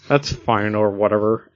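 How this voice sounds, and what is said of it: Cartoon character voice. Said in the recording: “It's Lumpy Space Princess... I do that voice”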